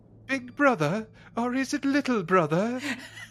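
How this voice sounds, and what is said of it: English-accented video game villain impression. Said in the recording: “where did his English accent come from ... That was actually pretty fucking... That was almost as good as my Christopher Walken earlier. ... It was impressive, actually, yeah.”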